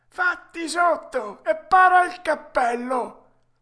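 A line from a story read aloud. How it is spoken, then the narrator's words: Old man shouting. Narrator (Italian): la voce del solito vecchino gridò a Pinocchio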